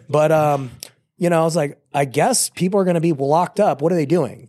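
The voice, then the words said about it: Sick, partly lost voice. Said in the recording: “I think I have COVID right now. That's where my voice went.”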